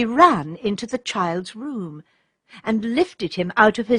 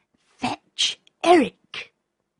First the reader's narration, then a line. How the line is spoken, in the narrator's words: Redcap said, in a low, clear voice